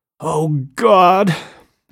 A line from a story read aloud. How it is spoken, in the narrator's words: whispered